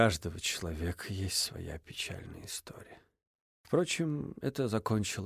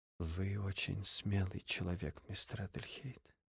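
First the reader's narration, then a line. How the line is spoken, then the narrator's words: Quiet. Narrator (Russian): тихо сказала Инесс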